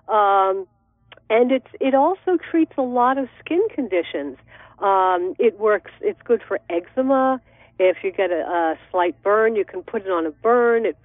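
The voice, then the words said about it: Congested voice with a cold. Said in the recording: “If you can hear it in my voice, I have a cold and I'm getting over a sore throat.”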